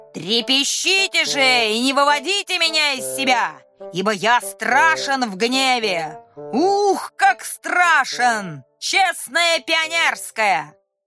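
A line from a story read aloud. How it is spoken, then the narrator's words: Breathless shouting. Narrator (Russian): Волька, не переводя дыхания, закричал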